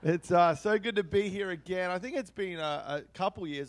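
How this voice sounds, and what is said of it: Australian-sounding accent. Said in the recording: “Hopefully you can understand the accent okay. Yes. G'day, mate. ... Good on ya. ... Crikey.”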